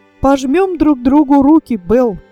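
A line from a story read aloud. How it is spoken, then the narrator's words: Cheerful speech. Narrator (Russian): весело сказал Фердинанд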